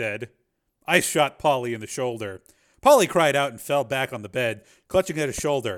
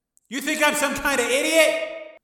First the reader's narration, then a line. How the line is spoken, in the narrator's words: Tommy shouted